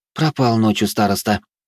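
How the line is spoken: Sighed. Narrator (Russian): вздохнула Валентина

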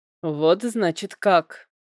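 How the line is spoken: Grumbling. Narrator (Russian): проворчал его близнец

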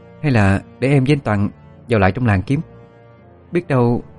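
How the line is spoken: Hesitant voice. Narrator (Vietnamese): Ân nói với giọng ngập ngừng

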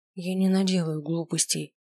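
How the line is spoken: Quiet. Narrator (Russian): тихо сказала я

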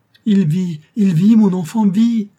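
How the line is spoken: Convulsive laughing cry. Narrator (French): s'écria-t-elle avec un rire convulsif

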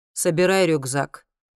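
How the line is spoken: Dry commanding tone. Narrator (Russian): приказывает колдун сухим тоном

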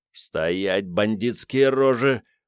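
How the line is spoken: Through gritted teeth. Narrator (Russian): процедил Начо Пирот

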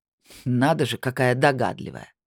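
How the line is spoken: Snorting. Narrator (Russian): фыркнул колдун

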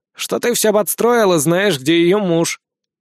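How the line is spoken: Short snort. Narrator (Russian): Сид хмыкнул

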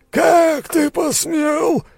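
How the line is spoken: Spluttering roar. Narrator (Russian): взревел, брызгая слюной

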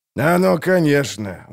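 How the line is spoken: Sighed. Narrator (Russian): вздохнул Золтан

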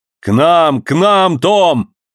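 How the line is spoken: Thunderous shout. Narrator (Russian): громовым голосом крикнул Джон Манглс

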